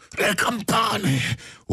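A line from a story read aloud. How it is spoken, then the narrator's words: Madman's terrible scream. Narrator (Italian): urlò il pazzo con voce terribile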